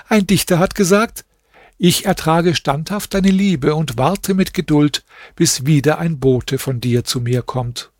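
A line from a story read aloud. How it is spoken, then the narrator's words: Laughing. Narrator (German): sagte sie lachend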